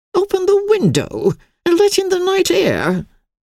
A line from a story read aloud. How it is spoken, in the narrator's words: she exclaimed